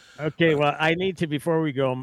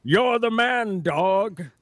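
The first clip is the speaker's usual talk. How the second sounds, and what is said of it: Sean Connery impression. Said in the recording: “do an impersonation of my favorite Sean Connery line from any of his movies ... Like Sean Connery”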